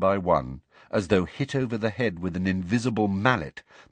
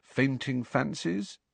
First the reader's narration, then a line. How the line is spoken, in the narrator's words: Harry suggested quietly